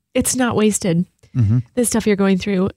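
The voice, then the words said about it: Emotional, choked-up voice. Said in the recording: “I got emotional there ... I'm getting emotional.”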